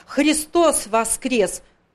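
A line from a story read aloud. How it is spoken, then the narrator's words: Grandmother's loud shout. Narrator (Russian): бабушка как крикнет громким голосом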